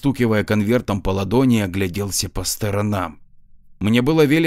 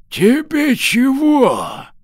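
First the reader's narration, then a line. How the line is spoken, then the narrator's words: Old man's smoky rasp. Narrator (Russian): Старик прохрипел прокуренным голосом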